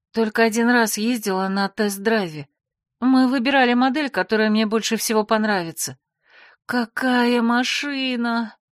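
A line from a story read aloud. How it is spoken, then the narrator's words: Moaning with delight. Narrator (Russian): Я снова застонала, не сумев сдержать рвущийся из груди восторг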